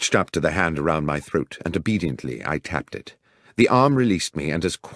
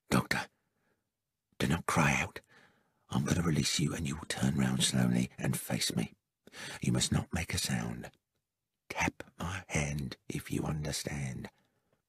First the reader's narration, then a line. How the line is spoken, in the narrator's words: The hot breath of my assailant in my ear whispered